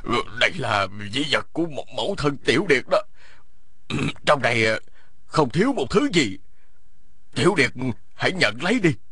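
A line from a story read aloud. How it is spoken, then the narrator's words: Old man, trembling voice. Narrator (Vietnamese): Lão run run nói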